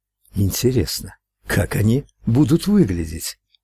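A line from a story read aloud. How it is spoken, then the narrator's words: Excited whisper. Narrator (Russian): прошептал возбужденный голос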